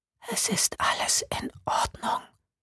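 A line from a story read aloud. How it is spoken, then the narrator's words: Male whisper. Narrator (German): flüsterte eine Männerstimme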